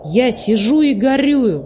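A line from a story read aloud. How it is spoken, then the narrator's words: Plain. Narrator (Russian): сказал он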